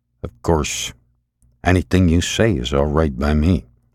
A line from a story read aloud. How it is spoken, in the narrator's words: murmured